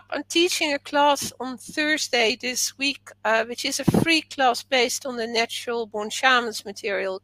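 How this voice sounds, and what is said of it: Dutch accent with British overlay. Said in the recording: “a Dutch accent with an overlay of a British accent”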